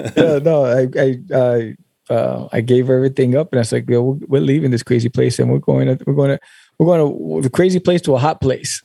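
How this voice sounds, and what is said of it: New York accent. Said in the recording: “you don't sound like you're from Texas ... I definitely detect some New York in the accent”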